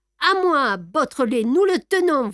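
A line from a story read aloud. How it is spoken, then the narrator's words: Angry shouting. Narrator (French): vociféra Ganimard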